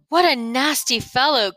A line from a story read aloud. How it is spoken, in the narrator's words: gasped Milo, who was having great difficulty just in getting his legs to move